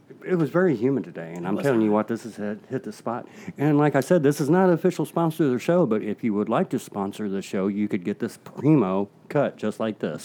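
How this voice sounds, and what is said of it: Serious, close-miked voice. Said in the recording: “That's my serious voice. ... I got real close to the mic and I'm doing something to the bottom of it with my finger ... I'm cupping the bottom too”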